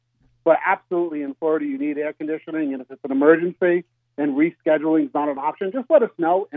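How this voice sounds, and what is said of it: Non-Southern Northeastern accent. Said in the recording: “this is not North Florida accent.”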